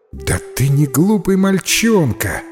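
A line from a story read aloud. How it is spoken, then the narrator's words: Exclaiming woman. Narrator (Russian): воскликнула миссис Майка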